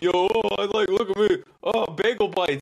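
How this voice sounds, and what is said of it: Imitates another person's voice. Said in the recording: “your 100% accurate impersonation of me”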